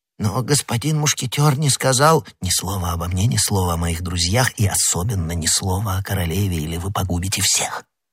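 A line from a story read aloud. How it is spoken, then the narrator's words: Whisper. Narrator (Russian): прошептал Д'Артаньян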